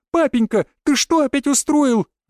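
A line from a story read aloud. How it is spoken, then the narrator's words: Girl's shriek. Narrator (Russian): взвизгнула девушка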